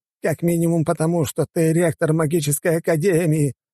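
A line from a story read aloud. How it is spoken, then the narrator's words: Exclaiming. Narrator (Russian): воскликнул артефактор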